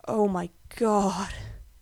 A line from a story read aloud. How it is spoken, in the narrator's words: Gerard whispers when all his breath has left him